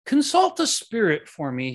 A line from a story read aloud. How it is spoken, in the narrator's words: he said